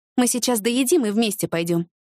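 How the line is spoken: Calm female reply. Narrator (Russian): спокойно ответила Ася

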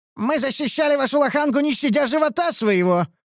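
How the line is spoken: Shout. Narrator (Russian): выкрикнул я

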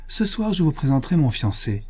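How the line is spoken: Cheerful. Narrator (French): dit gaiement Miette

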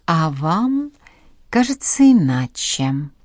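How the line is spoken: Drawling woman. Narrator (Russian): протянула женщина

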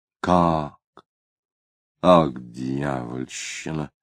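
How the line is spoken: Muttering. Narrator (Russian): пробормотал Тагильский

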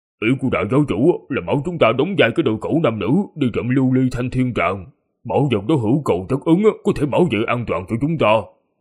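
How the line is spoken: Deep husky reply. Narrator (Vietnamese): Long Kỳ Lân ồm ồm đáp

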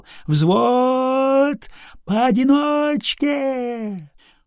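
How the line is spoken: Fervent, unfamiliar sung voice. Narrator (Russian): Жарким, никогда с собой неслыханным голосом Алексей пропел

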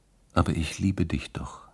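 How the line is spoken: Whispered. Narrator (German): hatte sie geflüstert

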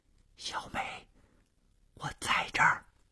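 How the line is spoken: Soft reply from darkness. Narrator (Chinese): 黑暗中传出了同样轻声的回答

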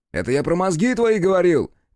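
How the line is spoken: Glad shout. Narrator (Russian): крикнул обрадованно

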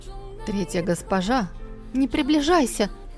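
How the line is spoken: Barely breathed. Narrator (Russian): едва выдохнула она

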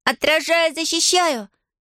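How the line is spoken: Shouted out. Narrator (Russian): выкрикнула Нелла

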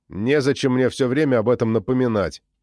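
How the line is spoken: Snapping back. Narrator (Russian): огрызнулся я

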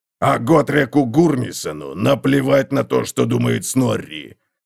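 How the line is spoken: Roaring. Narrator (Russian): проревел Готрек

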